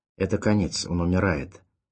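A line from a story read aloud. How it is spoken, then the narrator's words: Calm statement. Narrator (Russian): спокойно констатировал Горн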